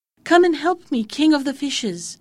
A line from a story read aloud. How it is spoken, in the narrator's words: he cried